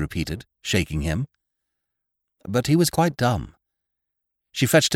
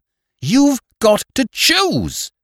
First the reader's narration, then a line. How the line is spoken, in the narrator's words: she cried, as if it were some terrible menace, and as if it hurt her that she could not exact more